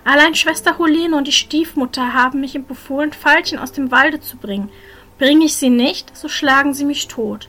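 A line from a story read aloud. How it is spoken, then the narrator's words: Sad reply. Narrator (German): entgegnete Maruschka traurig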